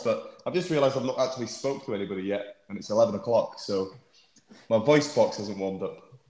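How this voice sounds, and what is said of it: Hoarse voice. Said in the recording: “my voice sounds a bit hoarse”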